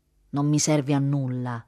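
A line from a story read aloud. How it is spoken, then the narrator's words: Quiet retort. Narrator (Italian): ribatté a voce bassa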